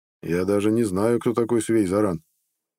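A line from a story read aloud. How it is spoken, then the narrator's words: Calm reply. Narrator (Russian): спокойно ответил Нед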